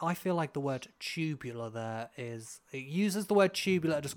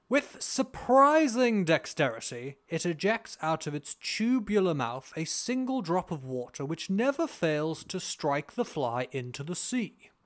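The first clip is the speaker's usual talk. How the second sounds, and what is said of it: Posh British accent. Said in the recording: “do my posh British voice”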